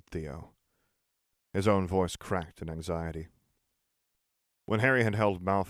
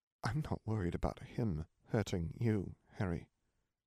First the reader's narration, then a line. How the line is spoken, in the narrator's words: Theo said quietly